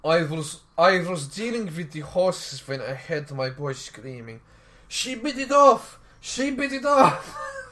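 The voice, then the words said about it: Put-on Ukrainian Eastern European accent. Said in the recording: “how is a Ukrainian accent sound like? ... It's very Polish, Eastern European Russian.”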